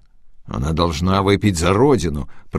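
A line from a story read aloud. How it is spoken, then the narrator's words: Muttered. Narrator (Russian): пробормотал Болежский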